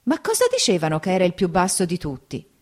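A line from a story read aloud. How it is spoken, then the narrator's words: Wife exclaiming. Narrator (Italian): la moglie d'Agenore esclamò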